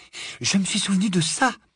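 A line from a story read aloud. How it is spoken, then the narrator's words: Panted. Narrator (French): haleta Hermione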